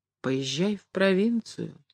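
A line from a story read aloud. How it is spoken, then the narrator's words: Quiet, hesitant. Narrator (Russian): тихо и нерешительно сказала Поленька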